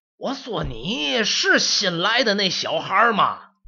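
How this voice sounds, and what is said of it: Old man with odd regional accent. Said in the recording (Chinese): “这人说话怎么这调啊？...您这是什么口音啊？...我这是正经的老吉尔尼斯口音”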